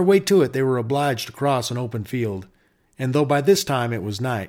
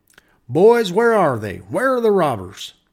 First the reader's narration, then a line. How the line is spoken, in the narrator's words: The Ranger captain called out